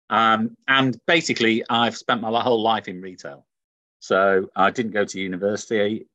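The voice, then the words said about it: Manchester northern English accent. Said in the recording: “as you can tell from the accent, I'm from Manchester in the north of England”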